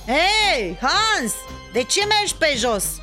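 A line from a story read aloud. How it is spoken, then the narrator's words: Shouted. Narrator (Romanian): îi strigă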